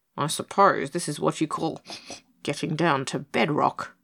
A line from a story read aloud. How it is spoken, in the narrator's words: he murmured, with his amused blue stare